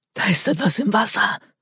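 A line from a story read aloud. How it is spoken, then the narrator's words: Hoarse whisper. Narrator (German): flüsterte heiser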